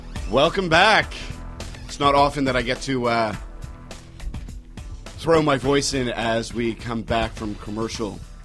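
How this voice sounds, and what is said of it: Deep, husky radio voice. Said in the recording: “It sounds so good... You got the radio voice, man. You got that deep, husky rabbi voice.”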